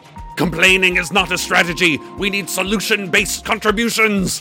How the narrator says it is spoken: Hiram's green head snarled

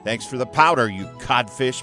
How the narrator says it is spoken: Peter shouted

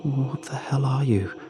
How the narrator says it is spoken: I croak out, frozen to the spot

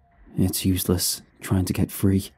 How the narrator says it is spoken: whispered, barely audible, his voice echoed in the empty room

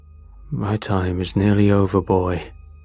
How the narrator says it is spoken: he rasped

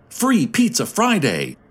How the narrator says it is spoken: a young voice shouted

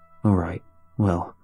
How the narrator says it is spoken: my father buried the frustration in his voice with a sigh

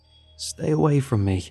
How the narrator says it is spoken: I said, my voice shaking

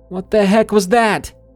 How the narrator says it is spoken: yelled out into the darkness

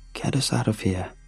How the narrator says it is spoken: Grayson whispered

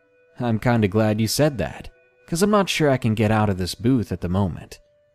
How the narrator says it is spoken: He chuckled and mentioned

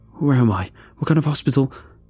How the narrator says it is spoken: Startled, blurting out

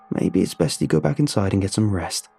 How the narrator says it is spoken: I said

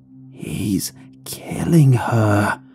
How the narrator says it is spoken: the voice whispered harshly

